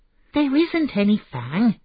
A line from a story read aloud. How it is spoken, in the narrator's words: Imran said crossly